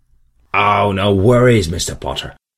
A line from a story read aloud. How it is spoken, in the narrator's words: said the vendor hastily